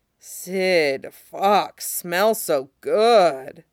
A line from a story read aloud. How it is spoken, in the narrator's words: Alex moans